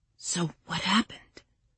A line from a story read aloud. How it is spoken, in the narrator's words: Patricia whispered